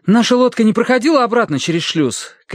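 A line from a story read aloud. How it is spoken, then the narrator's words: Shouting. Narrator (Russian): крикнул ему Терренс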